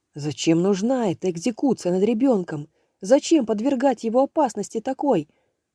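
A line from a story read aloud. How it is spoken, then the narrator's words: Shouted after shocked stupor. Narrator (Russian): выкрикнул я Анастасии, как только оправился от оцепенения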